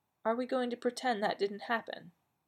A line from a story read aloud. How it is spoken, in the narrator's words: asked quietly